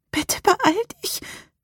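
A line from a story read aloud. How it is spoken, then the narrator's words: Whimpering. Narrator (German): wimmerte Rebecca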